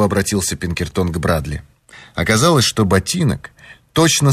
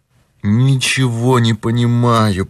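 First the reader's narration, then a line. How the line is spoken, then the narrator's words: Moan. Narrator (Russian): простонал тот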